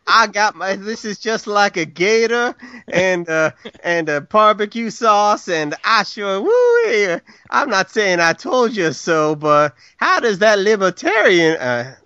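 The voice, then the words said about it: James Carville impression. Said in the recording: “That's my James Carville imitation. Much like all my imitations.”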